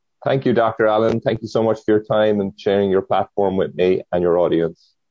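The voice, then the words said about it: Irish accent from Cork. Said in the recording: “where is that accent from? ... I was born and raised in Cork, which is in Ireland, in the south of Ireland”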